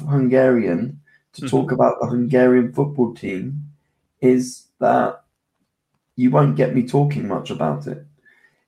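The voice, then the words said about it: English accent. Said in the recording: “So you're half English. I can tell by the accent. You're half British”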